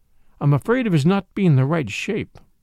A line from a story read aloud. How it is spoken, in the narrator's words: said in a choked voice